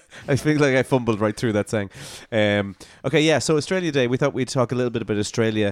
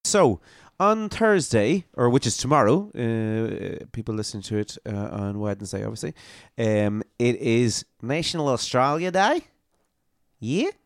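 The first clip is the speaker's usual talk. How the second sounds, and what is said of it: Poor put-on Australian accent. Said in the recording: “What do you think of my Australian accent? Pretty good? ... I'd say it would be quite insulting to Australians.”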